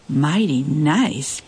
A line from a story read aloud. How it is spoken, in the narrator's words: purred the rodeo queen